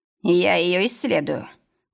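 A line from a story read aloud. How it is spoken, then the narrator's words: Through clenched teeth. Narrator (Russian): процедил Ойзенберг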